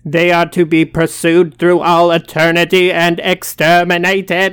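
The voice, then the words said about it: Imitates a Dalek voice. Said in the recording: “That is a very accurate accent there.”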